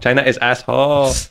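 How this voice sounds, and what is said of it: Mock Chinese accent. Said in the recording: “what kind of accent is that ... I was appropriating a Chinese man”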